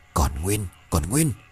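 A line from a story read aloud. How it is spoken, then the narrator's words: Muttering. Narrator (Vietnamese): Cái đại ca lẩm bẩm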